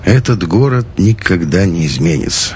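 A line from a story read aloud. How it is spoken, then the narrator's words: Grumbled. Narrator (Russian): проворчал Макарыч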